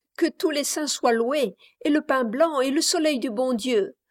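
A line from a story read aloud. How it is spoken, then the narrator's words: Lively exclamation. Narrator (French): s'écria la plus leste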